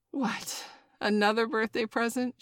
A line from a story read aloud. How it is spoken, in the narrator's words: She laughed